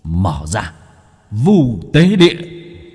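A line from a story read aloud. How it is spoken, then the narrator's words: Straining shout. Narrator (Vietnamese): Bác cổ cố gắng hét lên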